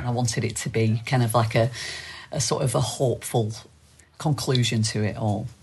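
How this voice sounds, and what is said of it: Strong, thick East Lancashire accent. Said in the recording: “Your accent is a very strong, thick East. ... East Lancashire, yeah. ... East Lancashire accent.”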